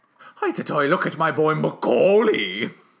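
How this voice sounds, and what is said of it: Strange put-on Jamaican-sounding accent. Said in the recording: “I don't know what accent that was, but I loved it. It sounded like a possessed Jamaican man.”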